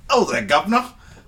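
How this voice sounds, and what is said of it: Put-on English accent. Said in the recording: “we'll just do our English accents ... That is very offensive”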